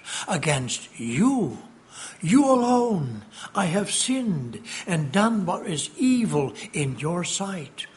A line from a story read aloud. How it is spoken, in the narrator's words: David he cried out from the bottom of his heart